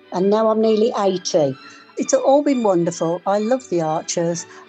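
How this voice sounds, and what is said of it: Birmingham English accent. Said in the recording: “I'm from Birmingham, as you can probably tell by the accent.”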